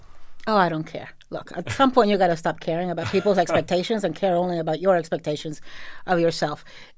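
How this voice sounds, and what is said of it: Miami Latina accent. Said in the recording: “my sexy Latina accent ... my irritating Mexican accent ... I didn't even know I had an accent. Everybody in Miami talks like me.”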